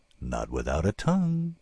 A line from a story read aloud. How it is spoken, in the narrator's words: Bill said dreamily